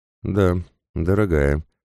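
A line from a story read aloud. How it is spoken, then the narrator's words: Old man, dry tone. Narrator (Russian): сухо произнес старик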